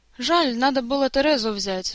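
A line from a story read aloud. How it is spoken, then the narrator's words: Sighing. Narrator (Russian): вздохнул Жак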